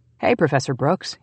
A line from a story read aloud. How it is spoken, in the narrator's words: he said cheerfully